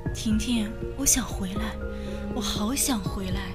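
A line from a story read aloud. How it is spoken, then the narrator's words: Soft calling. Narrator (Chinese): 杜梅…口中还轻声的喊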